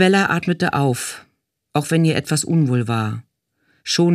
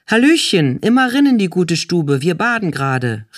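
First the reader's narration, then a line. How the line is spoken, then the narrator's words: Calling out. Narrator (German): rief Zonengabi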